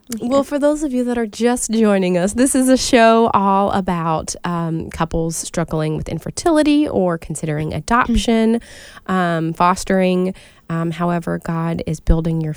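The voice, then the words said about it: Raspy, hoarse voice. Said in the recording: “I'm recovering from a cold, so I sound like a chain smoker over here.”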